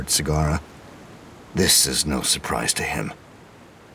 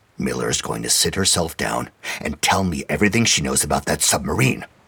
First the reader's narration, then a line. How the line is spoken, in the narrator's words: barked Sagara